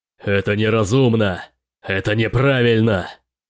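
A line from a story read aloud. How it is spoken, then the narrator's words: Shouting at full voice. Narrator (Russian): Мартус крича во весь голос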